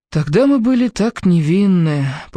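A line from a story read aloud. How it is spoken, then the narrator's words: Sad repetition. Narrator (Russian): повторил он грустно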